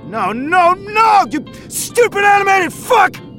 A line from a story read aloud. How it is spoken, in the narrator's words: he yelled